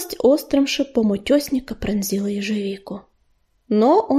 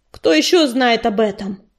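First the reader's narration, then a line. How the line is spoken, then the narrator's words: Rough bark. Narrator (Russian): грубо рявкнул он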